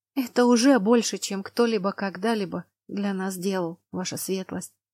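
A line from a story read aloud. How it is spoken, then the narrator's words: Whispered. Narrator (Russian): прошептала Лана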